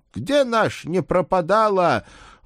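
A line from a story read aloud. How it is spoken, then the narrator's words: Shouted upward. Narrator (Russian): выкрикнул он в потолок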